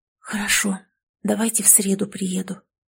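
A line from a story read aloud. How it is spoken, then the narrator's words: Near whisper. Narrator (Russian): ответила она почти шепотом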